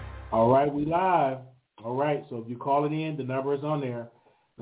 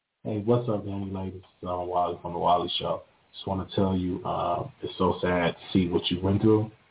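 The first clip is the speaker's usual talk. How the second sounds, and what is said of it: Put-on deep voice. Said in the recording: “I'm putting my deep voice.”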